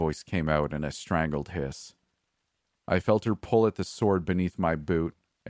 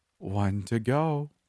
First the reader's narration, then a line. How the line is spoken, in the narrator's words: Haruka said in a playful voice